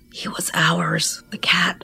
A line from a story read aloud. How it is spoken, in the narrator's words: hissed